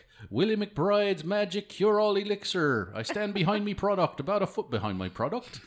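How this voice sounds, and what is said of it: Exaggerated put-on Irish brogue. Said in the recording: “the worst Irish brogue ever”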